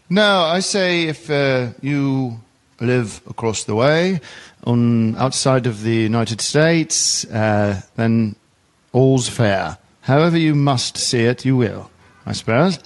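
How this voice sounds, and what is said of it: Put-on English accent. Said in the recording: “Is this an English accent? ... Very good. ... It is an English accent.”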